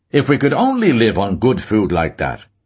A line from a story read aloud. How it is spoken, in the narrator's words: said somewhat loudly